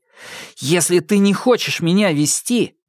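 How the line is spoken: Said through clenched teeth. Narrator (Russian): процедил он

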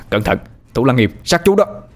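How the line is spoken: Shouting warning. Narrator (Vietnamese): Anh hét lên

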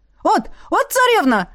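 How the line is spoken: Yelling. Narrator (Russian): завопил Алёша

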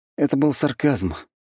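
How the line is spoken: Sighing. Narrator (Russian): парень вздохнул

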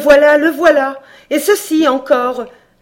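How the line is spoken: Mother cries out breathlessly. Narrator (French): s'écria la mère, pouvant à peine respirer

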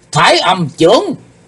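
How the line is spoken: Shout. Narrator (Vietnamese): Sau tiếng hét đó

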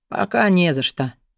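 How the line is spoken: Embarrassed grumble, baron. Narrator (Russian): проворчал барон, смущенный ее бурной реакцией

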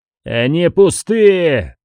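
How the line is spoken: Shouting. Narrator (Russian): закричал железный шлем

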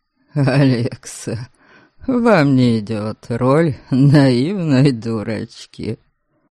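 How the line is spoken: Snorting with suppressed laughter. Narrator (Russian): Норберг фыркнул от сдерживаемого с трудом смеха

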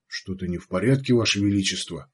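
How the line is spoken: Anxious whisper. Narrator (Russian): тревожно прошептал министр двора

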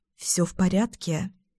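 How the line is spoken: Quiet question. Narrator (Russian): я тихо спрашиваю Эйдена

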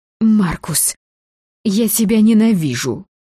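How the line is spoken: Helpless breathed words. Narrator (Russian): Выдохнула я беспомощно

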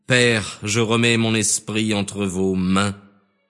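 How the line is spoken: Loud cry. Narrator (French): criant d'une voix forte, Jésus dit

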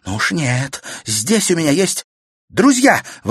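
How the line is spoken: Exclamation. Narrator (Russian): воскликнула Катерина

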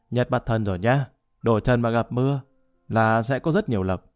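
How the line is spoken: Booming loud voice. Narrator (Vietnamese): tay cai thầu nói oang oang

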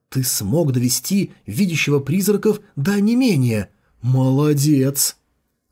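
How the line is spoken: Exclaimed. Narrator (Russian): Джухун воскликнула

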